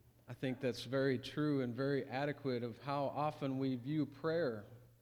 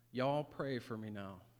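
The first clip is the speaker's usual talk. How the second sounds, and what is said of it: Charming Southern US accent. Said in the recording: “a charming southern accent”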